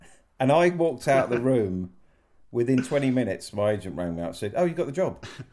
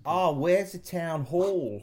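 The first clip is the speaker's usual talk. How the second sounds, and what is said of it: Poor put-on Australian accent. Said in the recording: “can you say, where's the town hall in an Australian accent? ... Rubbish, isn't it? ... It's shite.”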